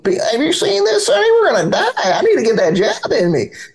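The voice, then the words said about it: Imitated old lady voice. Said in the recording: “I like your old lady voice.”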